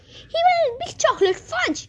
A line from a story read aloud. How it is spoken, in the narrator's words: shrieked Miss Gloop